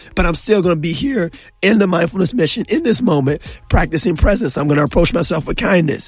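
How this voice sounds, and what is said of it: Hoarse, strained, lost voice. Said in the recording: “my voice is out ... I sound like Kermit the Frog or I sound like Darth Vader on the radio”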